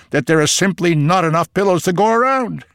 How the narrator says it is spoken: Avrom said excitedly

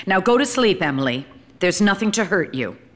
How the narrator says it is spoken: she still called in a sterner voice

